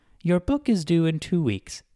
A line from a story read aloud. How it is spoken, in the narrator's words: said in a sweet voice